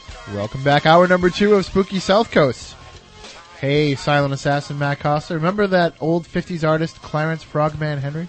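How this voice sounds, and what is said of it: Hoarse, fading voice. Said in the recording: “my voice is rapidly going away ... I'm under the weather ... I was choked”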